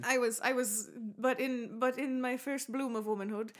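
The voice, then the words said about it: Old-person voice, slightly British. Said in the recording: “that your old person impression ... I get a little British when I age”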